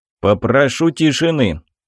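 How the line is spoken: Stern. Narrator (Russian): строго произнес

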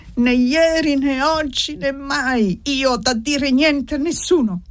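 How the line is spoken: Hoarse shout. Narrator (Italian): Ella gridò con voce rauca

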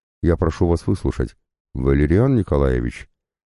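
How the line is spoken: Gentle, almost fatherly. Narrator (Russian): мягко произнес граф, в его голосе послышались почти отеческие нотки

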